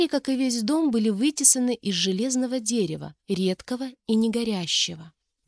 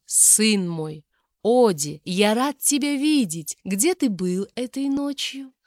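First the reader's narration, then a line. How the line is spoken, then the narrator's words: Falsely affectionate father. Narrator (Russian): Фальшиво, ласково спросил отец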